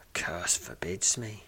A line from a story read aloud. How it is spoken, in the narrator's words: says, a voice barely above a whisper